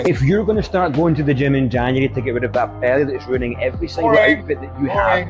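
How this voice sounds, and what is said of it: Speaks with a noticeable accent. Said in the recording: “I like the accent. I think the accent is, it's going to push your shit.”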